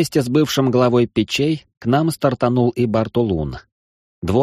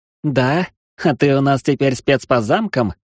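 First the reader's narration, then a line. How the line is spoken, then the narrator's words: Scoffing snort. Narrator (Russian): хмыкнул Эридани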